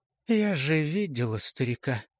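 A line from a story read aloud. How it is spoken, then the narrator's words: Quiet. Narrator (Russian): тихо продолжала Сережка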